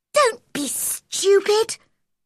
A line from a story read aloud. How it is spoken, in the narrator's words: cried Mary